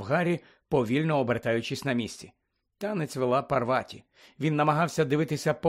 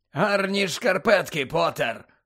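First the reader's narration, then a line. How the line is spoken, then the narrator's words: Growled. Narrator (Ukrainian): прогарчав Муді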